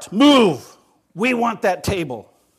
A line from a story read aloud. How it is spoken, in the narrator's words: he barked